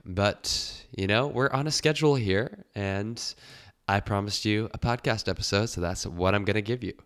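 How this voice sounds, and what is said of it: Sick, under-the-weather voice. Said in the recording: “you may be able to tell from my voice that I've caught a little something a summer bug ... my definitively non podcast ready voice”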